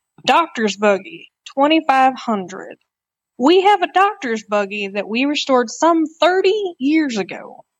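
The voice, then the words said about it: Weak put-on Texas Southern accent. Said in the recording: “I'll do my best at another hilarious, not very good Texas accent, or let's just say Southern.”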